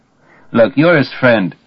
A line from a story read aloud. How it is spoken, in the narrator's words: Tantive moans